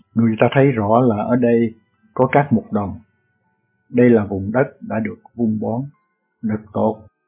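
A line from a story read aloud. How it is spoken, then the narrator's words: Muttering. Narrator (Vietnamese): Phêrô lẩm bẩm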